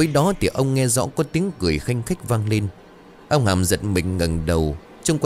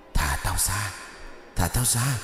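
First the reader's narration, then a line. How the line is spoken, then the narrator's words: Whisper. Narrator (Vietnamese): tiếng ai đó thì thầm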